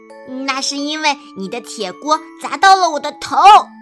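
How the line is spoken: Roaring. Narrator (Chinese): 蹦蹦吼道

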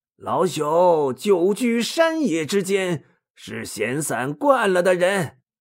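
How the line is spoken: Cheerful, chuckling. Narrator (Chinese): 水镜先生笑嘻嘻的说

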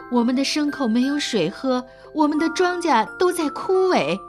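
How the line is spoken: Crowd pleading desperately. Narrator (Chinese): 百姓们苦苦地哀求着

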